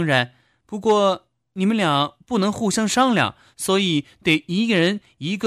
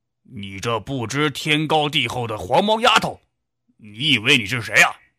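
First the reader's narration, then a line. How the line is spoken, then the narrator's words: Angry roar. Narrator (Chinese): 齐胜天脸红脖子粗的吼道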